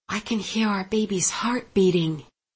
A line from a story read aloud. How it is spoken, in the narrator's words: she smiled at us, told Simon in a hushed voice